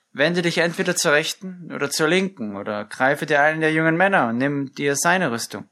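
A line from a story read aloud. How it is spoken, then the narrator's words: Called out. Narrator (German): Abner rief ihm zu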